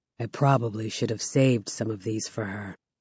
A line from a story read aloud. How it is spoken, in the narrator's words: he says quietly